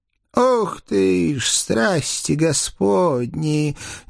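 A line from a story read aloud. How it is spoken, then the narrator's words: Breathed out. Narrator (Russian): выдохнул мой денщик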